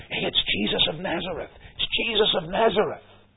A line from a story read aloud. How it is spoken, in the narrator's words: the crowd is whispering